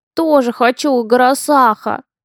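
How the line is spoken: Wistful sigh. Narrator (Russian): Тоскливо вздохнул Лаки

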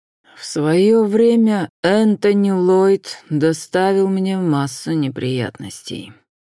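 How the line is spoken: Through gritted teeth. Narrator (Russian): процедил Уильям Присли

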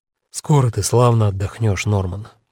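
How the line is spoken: Soft. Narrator (Russian): мягко начал он

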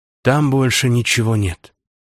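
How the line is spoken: Sighing vampire. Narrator (Russian): вздохнул вампир

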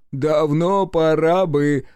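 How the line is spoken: Said, then loud laughter. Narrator (Russian): сказал третий и разразился хохотом

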